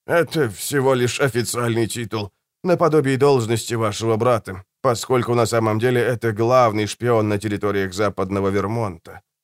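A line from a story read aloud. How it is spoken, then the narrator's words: Weak voice. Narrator (Russian): слабым голосом произнес сэр Пласс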